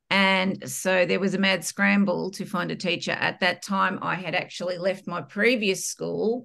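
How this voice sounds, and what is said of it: Australian accent. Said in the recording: “if you can't tell by my accent, I'm Australian”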